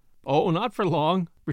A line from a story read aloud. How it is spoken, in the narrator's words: returned Brooks, laughingly